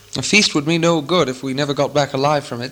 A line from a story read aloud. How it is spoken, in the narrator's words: said Thorin